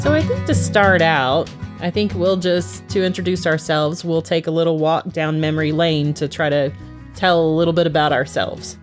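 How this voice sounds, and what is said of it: Texas accent. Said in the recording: “I have one accent and Paul here has a little slightly different accent... I'm originally from Texas”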